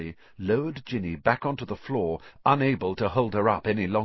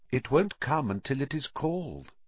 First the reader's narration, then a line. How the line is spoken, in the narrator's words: said Riddle calmly